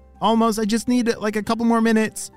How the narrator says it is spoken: shouted Ollie

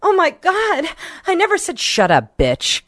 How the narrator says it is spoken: She gasped

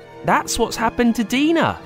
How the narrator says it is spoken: gasped Bella

